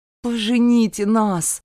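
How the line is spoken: Pleading. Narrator (Russian): взмолился я

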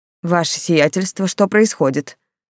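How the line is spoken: Said through teeth. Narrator (Russian): носатый процедил

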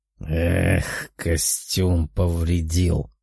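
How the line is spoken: Demon's grumble. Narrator (Russian): проворчал демон

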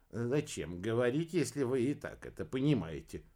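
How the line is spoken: Snort. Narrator (Russian): хмыкнул Иха

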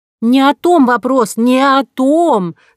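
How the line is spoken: Sudden shout. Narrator (Russian): закричала вдруг Нинеля

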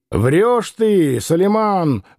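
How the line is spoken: Loud, rude. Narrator (Russian): громко и грубо сказал Иноков

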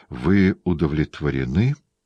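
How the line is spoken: Trembling question. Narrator (Russian): спросил дрожащим голосом

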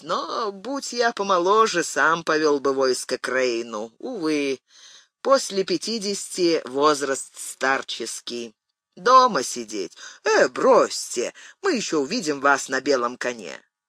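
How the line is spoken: Sighing old prince. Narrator (Russian): вздохнул князь

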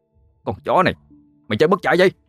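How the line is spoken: Shout. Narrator (Vietnamese): hét lên

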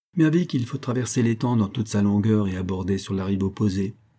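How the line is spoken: Plain reply. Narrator (French): répondit

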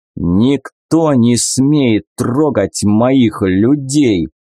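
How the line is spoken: Strained through teeth. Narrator (Russian): процедил я, едва удерживая управление над навыком

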